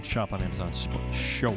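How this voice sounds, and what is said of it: Exaggerated radio announcer voice. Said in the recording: “That's my radio voice.”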